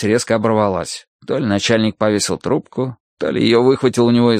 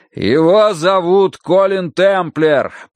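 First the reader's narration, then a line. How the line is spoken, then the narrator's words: Shouting. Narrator (Russian): прокричал Данворти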